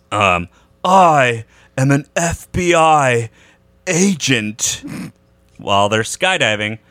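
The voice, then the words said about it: Imitates another person's voice. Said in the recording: “you do a actually not terrible Keanu Reeves impression.”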